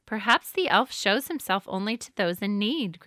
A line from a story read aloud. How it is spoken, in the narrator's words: grandmother said